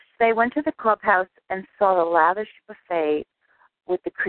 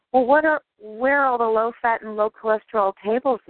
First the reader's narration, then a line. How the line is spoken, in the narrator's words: the old man asked timidly